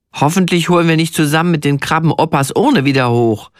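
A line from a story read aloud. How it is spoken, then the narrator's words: Plain. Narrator (German): sagt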